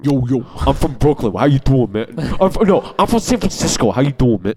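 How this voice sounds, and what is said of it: Exaggerated Brooklyn-style accent imitation. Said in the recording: “I had a problem with Tom Hardy's accent. ... Like, he's the only guy in San Francisco that sounds like that.”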